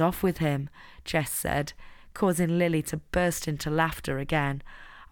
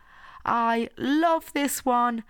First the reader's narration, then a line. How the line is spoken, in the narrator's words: Lily shouted